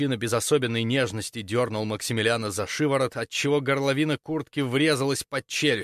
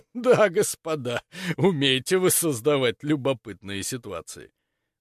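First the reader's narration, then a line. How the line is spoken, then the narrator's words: Said while laughing. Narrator (Russian): Сказал сквозь смех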